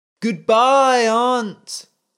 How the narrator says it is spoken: the boy cried into the sea

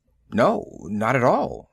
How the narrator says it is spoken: the man murmured

